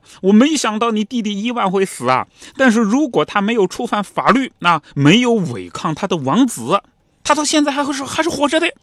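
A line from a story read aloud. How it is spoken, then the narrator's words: Loud yelling. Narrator (Chinese): 安德烈王子还在那嚷嚷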